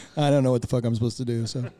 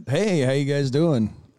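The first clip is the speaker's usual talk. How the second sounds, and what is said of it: Strong, booming radio-announcer voice. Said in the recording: “Was strong radio voice. ... he kind of came in there kind of hard, too. Came in strong.”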